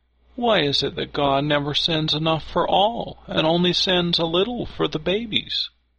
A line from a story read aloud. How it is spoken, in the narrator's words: one of the girls cried